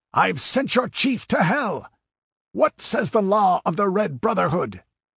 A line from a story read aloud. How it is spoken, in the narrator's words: he roared